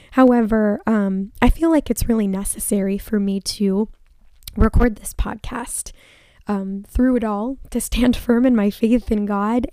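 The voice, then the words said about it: Hoarse, failing voice. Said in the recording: “my voice is gone. ... forgive me if my voice gives out or if you hear coughing”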